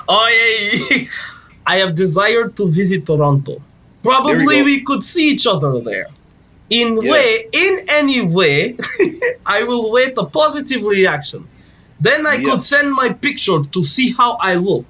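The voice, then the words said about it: Put-on Russian accent. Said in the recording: “Do it with a Russian accent ... That's Alex's dialect ... It's definitely Eastern European.”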